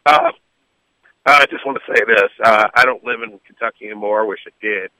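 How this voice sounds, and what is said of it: Hoarse, nearly lost voice. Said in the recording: “Lost my voice yelling at the game, so please, I hope you can hear me.”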